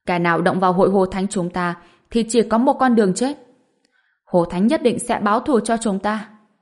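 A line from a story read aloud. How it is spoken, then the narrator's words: Group, gritted-teeth shout. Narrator (Vietnamese): Những người khác đều nghiến răng quát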